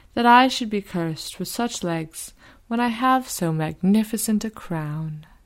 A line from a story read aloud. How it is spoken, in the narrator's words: he sighed